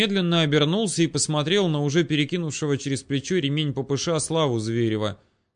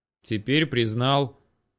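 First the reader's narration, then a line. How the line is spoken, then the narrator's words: Grumbled. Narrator (Russian): буркнул Слава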